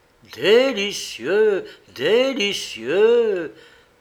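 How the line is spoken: Sudden exclamation. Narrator (French): s'écria tout à coup Ugolino

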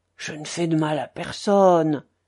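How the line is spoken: Pitiful murmur. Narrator (French): murmura piteusement Maximov

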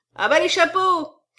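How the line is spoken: Crowd shouting. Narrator (French): crie le parterre

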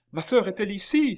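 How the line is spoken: Shouting from afar. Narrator (French): s'écria-t-il, du plus loin qu'il aperçut le groupe

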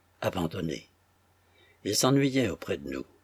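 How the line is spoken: Trembling voice. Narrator (French): dit-il d'une voix tremblante

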